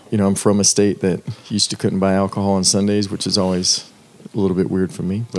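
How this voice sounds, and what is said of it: Southern American accent. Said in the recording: “your Southern accent is great”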